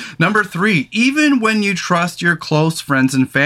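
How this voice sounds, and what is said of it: Usual voice. Nothing is said of it.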